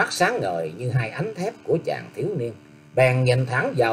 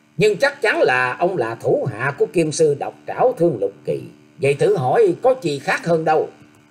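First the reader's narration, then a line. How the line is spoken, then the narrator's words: Young man laughing loudly. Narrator (Vietnamese): Chàng thiếu niên cất tiếng cười to nói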